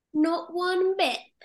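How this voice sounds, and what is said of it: Put-on English accent. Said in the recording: “There's the, there's the English Mary Poppins accent going again.”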